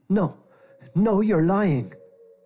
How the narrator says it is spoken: Jeremiah shouted

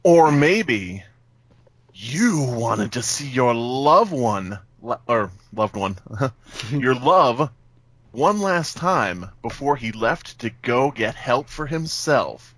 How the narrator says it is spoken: Marcy said in her dramatic voice

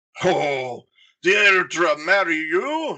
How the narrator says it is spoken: his father cackled

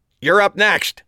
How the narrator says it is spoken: a voice next to me yelled over the applause

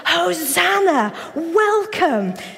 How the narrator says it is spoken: the disciples lead the crowd in shouting

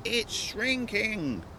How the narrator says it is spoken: Ross cried, voice almost lost in the wind

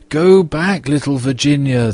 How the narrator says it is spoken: they cried

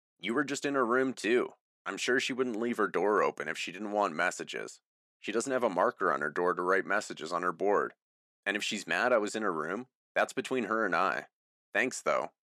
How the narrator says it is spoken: I said

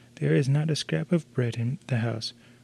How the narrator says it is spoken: quavered the old man

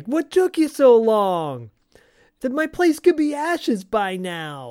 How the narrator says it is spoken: Sal's yelling

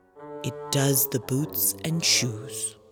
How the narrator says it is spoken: the Griffith replied very solemnly

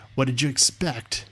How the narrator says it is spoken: said another

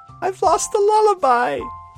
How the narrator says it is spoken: Luna wailed

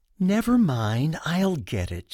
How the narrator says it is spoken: sighs

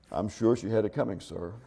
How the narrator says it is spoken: the diplomat quietly says

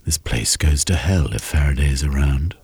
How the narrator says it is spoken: Jeremy muttered

